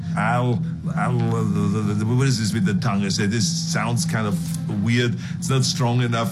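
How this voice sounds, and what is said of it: Speaks with a foreign accent. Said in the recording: “because of my accent ... All of this stuff is kind of said with an accent that people just thought this is funny”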